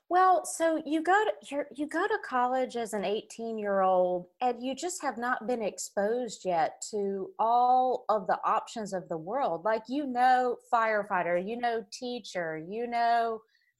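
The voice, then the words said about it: Southern American accent. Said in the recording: “I've got a Southern accent ... Your accent is fantastic”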